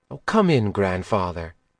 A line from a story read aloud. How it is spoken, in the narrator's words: said quietly